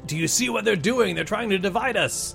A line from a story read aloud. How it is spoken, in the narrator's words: Vretkrag, he yells out